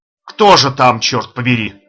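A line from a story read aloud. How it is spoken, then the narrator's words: Said angrily. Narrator (Russian): в третий раз уже сердито произнес голос неизвестного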